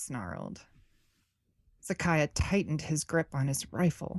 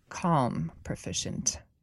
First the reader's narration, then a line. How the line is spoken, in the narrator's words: Vassal murmured from behind him